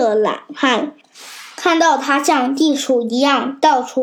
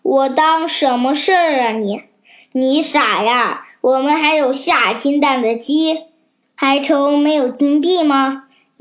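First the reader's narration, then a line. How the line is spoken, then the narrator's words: Laughing woman. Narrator (Chinese): 懒汉的妻子笑着说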